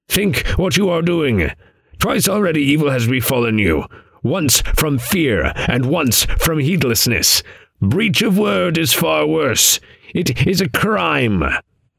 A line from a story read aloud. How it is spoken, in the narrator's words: croaked the raven